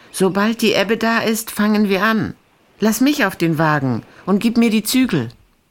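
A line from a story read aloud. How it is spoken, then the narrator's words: Call. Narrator (German): Gesas Erdmannche rief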